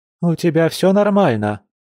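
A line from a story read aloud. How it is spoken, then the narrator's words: Shouted. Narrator (Russian): крикнула Лиана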